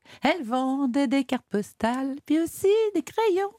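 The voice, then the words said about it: Bourvil's little accent. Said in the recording (French): “le petit accent. Vous faites ... le petit accent ... de Bourville.”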